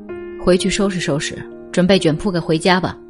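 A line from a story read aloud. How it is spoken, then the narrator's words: Cold, curt. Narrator (Chinese): 班主任只冷冷的丢下一句话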